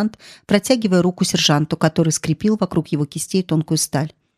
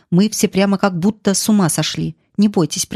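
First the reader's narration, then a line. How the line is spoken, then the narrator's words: Through gritted teeth. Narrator (Russian): процедил он сквозь зубы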